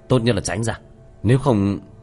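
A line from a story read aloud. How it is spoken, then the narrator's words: Cold. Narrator (Vietnamese): Tiểu Thất lạnh lùng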